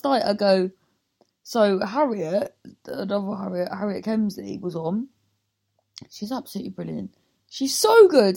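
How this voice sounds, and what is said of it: Rough, strained voice from sore throat. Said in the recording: “that's why my throat's fucked ... I was just explaining why my voice was like this”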